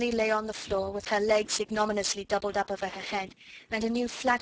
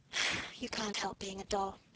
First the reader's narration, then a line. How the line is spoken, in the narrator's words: said with a resigned sigh